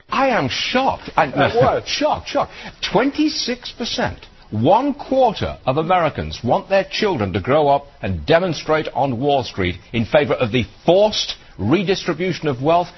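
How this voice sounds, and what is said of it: Fancy British accent. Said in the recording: “Stuart Varney in his fancy British accent”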